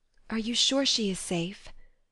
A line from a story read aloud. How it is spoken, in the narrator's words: whispered Joe, looking remorsefully